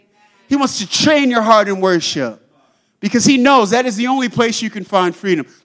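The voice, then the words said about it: Loud, yelling preaching voice. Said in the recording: “I'm not just sitting here yelling at you. I'm sorry if I'm yelling.”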